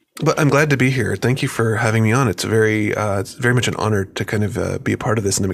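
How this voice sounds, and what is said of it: Deep late-night radio voice. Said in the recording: “late night radio voice”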